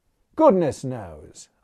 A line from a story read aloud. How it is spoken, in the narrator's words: I answered testily